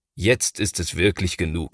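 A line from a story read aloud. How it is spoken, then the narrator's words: Plain. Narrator (German): sagt Papa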